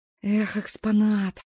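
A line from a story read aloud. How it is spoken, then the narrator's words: Sighing. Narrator (Russian): вздохнула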